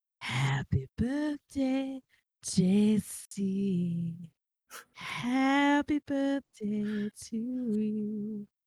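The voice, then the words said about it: Sultry, seductive singing voice. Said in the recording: “Sexy voice.”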